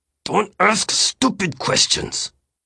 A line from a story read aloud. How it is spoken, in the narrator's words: he said through his teeth